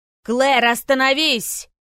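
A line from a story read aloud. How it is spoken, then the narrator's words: Telepathic shout. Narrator (Russian): закричал Ран, проникнув в сознание девушки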